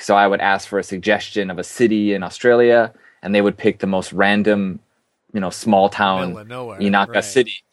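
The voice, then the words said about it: American accent. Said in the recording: “being an American, they could pick up on my accent”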